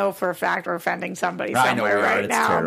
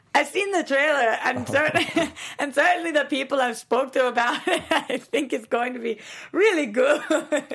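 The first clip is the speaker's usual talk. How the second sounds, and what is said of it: Weak put-on Scottish accent. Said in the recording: “Scottish ... That's my Scottish impression ... You gotta sound a little more like this ... Terrible ... you sound like the serial Scottish dude”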